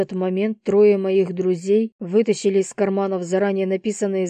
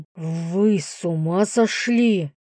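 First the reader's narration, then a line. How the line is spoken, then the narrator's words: Hiss. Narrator (Russian): прошипел он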